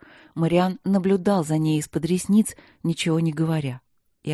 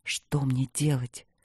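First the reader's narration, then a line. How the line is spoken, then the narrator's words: Lost whisper. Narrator (Russian): прошептал он потерянно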